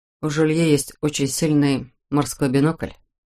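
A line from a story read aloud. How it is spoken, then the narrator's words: Expressionless. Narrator (Russian): сказал он ничего не выражающим голосом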